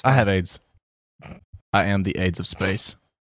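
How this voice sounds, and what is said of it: Swedish death metal accent. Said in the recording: “That's a Swedish death metal accent.”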